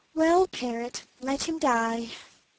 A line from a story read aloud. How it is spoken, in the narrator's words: answered the princess with a sigh